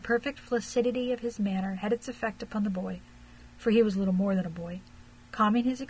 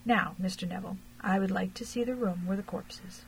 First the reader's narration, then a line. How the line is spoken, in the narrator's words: very quietly to Eric